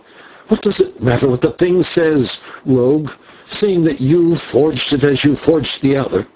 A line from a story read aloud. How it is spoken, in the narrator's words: the Signor said fiercely